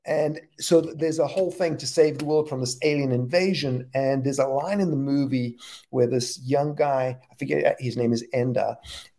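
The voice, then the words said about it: Texas accent. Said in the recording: “It's an accent thing ... my Texas”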